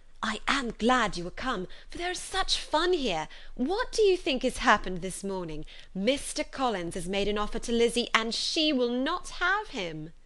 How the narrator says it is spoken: Lydia … cried in a half-whisper

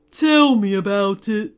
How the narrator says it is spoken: groaned the volcano

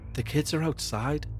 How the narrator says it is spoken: whispered Jean

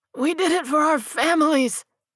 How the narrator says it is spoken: wailed and coughed violently

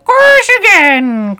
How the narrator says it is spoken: cried the Griffin

